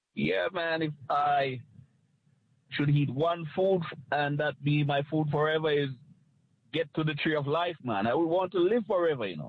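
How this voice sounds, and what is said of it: Jamaican Caribbean accent. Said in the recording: “a little bit of a Caribbean accent? ... Jamaica. Uh-huh, I could tell.”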